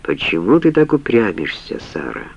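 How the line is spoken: Soft question. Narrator (Russian): мягко спросил

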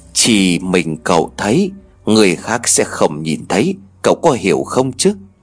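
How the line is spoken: Whispering. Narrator (Vietnamese): Bên tay của cậu có tiếng nói thì thầm

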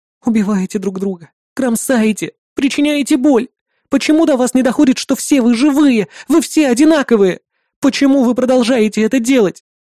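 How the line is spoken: Sobbing girl. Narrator (Russian): всхлипывала девочка

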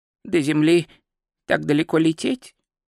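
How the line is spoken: Muttering. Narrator (Russian): пробормотал Ринсвинд

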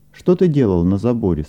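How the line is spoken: Plain. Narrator (Russian): спросил Лука

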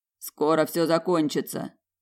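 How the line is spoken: Quiet. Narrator (Russian): произнес негромко Тлинар

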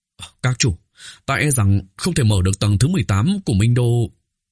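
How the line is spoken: Hoarse, heavy-hearted. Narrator (Vietnamese): Trong lòng Bạch Trạch trầm xuống, thanh âm khàn khàn, nói

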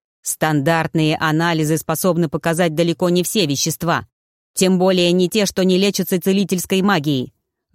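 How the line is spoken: Growled. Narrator (Russian): рыкнул Тьер

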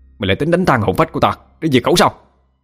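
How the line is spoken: Roar. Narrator (Vietnamese): Nhân gầm lên

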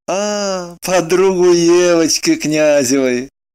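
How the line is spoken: Young man laughing. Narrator (Russian): рассмеялся молодой человек

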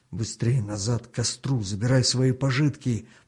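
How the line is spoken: Whisper. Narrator (Russian): прошептал Артему хан

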